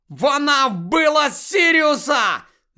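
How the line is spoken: Shouting. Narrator (Ukrainian): закричав Гаррі

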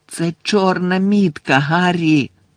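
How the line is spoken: Moaning. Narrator (Ukrainian): простогнала Герміона

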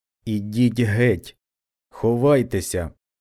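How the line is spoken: Low voice. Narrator (Ukrainian): промовив своїм низьким голосом

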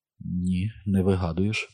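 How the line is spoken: Whispered. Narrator (Ukrainian): прошепотіла

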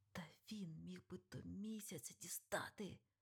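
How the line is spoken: Angry. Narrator (Ukrainian): Сердито шарпнувся Тревіс

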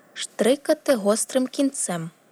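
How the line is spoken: Exclaimed. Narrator (Ukrainian): вигукнула

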